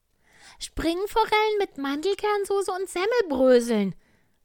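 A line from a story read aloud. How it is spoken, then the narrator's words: Small creature calling out. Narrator (German): rief der kleine Tiger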